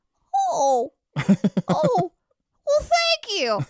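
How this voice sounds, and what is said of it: Imitation of an elderly man. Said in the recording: “It's a good imitation.”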